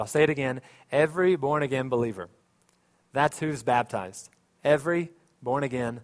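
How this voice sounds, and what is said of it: Usual voice. Nothing is said of it.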